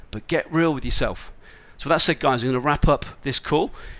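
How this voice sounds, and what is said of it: Slightly hoarse voice. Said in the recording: “my voice is a little bit hoarse ... I was talking for 2 days solid”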